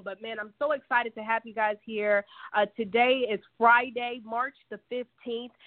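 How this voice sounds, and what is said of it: Slightly raspy voice. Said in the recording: “our sister's been dealing with some health and wellness ... it was more like a cold and flu ... if you hear my voice get a little raspy, that's what's going on”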